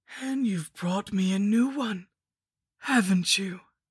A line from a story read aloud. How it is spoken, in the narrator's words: moaned through my skull mask